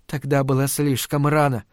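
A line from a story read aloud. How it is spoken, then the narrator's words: Whispered. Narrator (Russian): прошептала она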